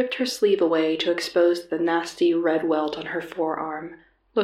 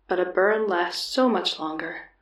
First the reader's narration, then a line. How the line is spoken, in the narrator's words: she murmured